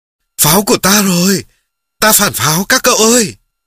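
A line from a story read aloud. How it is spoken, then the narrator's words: Cheering soldier. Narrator (Vietnamese): Một chiến sĩ reo lên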